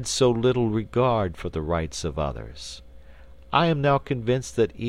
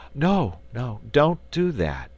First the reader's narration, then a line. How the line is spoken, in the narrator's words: pleaded the dove, fluttering its wings in an excited way